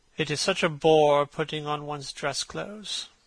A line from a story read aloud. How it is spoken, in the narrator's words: muttered Hallward